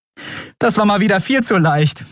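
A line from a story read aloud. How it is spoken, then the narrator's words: Laughing. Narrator (German): sagte sie lachend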